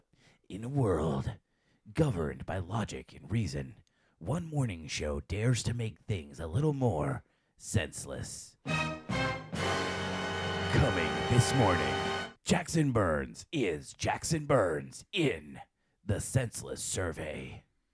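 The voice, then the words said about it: Dramatic movie trailer announcer voice. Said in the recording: “I love my movie announcer voice... I love that you love your new movie announcer voice.”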